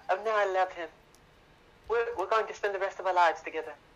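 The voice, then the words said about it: Put-on British accent. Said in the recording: “Nice British accent. ... It was meant to be a British accent.”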